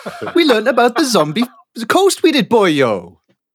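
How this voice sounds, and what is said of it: Put-on Welsh accent. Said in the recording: “Pirates don't have Welsh accents.”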